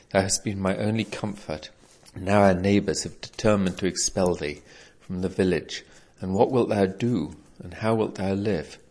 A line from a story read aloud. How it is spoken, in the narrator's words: said the old man, sighing heavily